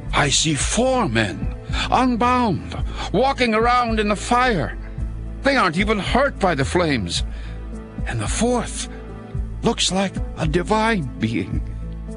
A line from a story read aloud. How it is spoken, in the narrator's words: Nebuchadnezzar shouted